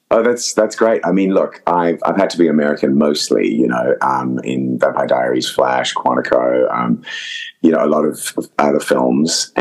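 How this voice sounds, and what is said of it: Mixed, English-sounding Zimbabwean-Australian accent. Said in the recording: “I don't hear your accent as much... my natural accent, which is a crazy kind of mix. It does sound quite English, according to some people, but it's, you know, it's a mixture of sort of Zimbabwean, Australian, and I guess a bit of American, and then it's just kind of affected”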